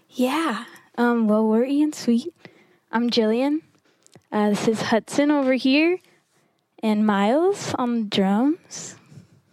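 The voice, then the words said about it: Breathless, out-of-breath speech. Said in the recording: “Sorry, I'm like super ... out of breath.”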